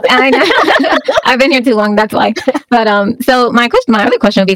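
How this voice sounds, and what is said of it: Mixed Jamaican accent. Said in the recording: “I'm Jamaican ... your accent is quite mixed right now. Not all Jamaican sound.”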